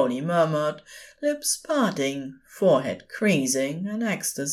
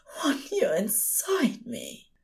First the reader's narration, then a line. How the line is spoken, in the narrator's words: Aziraphale moaned